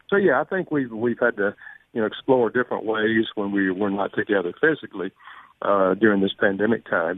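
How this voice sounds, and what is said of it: North Carolina accent. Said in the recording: “I hear your accent. Where are you from? ... North Carolina.”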